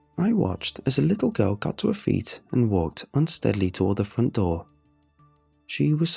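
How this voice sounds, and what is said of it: Usual voice. Nothing is said of it.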